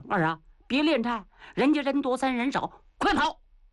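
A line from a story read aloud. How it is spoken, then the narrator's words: Shouting. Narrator (Chinese): 秦桧在后头大喊一声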